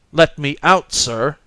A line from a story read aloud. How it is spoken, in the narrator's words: I repeated angrily